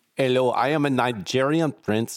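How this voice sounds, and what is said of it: Poor put-on Nigerian accent. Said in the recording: “I don't know why this accent is very bad all of a sudden.”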